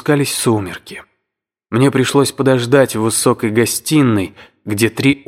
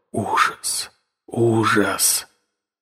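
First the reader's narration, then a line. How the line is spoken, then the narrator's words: Whisper. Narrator (Russian): шепот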